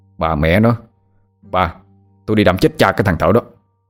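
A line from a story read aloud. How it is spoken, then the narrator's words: Angry shout. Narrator (Vietnamese): Tâm quát lên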